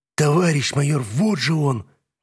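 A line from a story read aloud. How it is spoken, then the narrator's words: Hoarse rasp. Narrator (Russian): прохрипел громарь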